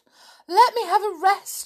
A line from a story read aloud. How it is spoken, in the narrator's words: she panted